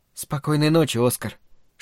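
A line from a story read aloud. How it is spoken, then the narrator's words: Whisper. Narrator (Russian): шепнула она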